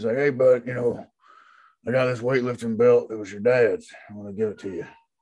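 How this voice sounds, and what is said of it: Imitates another person's voice. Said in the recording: “my Stone Cold impression ... That was pretty good. That was all right. ... like Stone Cold Steve Austin waking up in the morning”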